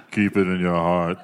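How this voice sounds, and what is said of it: Imitates another person's voice. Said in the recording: “pretty good Vin Diesel impression”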